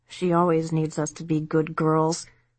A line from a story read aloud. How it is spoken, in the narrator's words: Debbie mumbled